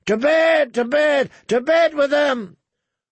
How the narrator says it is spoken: Walder Frey's sons and grandsons began to bang their cups again, shouting

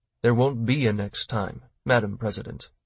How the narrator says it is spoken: Roch said calmly

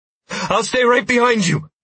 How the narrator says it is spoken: I gasped, sounding like I'd crushed the world record for the 100-yard dash

